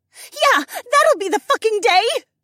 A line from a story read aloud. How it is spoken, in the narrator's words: Becca screeched back